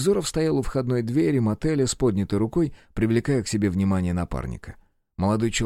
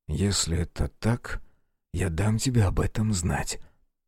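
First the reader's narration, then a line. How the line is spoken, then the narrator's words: Young man's whisper. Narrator (Russian): прошептал молодой человек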